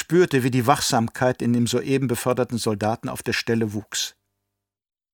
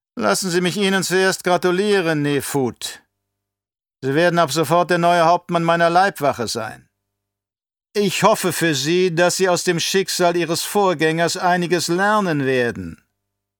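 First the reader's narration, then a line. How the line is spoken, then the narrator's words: Said loudly. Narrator (German): Laut sagte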